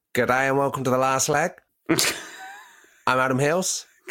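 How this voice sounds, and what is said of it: Put-on Australian accent. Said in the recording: “Go and do an Aussie accent. You can do it, can't you?”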